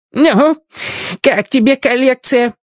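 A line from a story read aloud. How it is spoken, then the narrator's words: Old man's joyful question. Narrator (Russian): радостно спросил старикан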